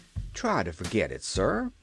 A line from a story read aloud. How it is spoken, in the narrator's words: advised Cap'n Bill soothingly